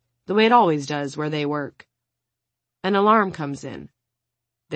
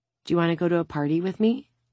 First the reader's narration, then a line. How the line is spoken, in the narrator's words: She whispers